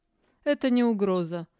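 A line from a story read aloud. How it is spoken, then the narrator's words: Laughing. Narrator (Russian): засмеялся Эрден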